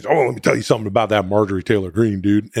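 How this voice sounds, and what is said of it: Imitates another person's voice. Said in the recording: “you do some shitty Hulk Hogan impersonation”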